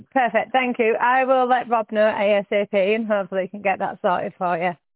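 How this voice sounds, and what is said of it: Yorkshire accent, very northern. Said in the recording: “It's the Yorkshire accent I'm hearing. ... very northern”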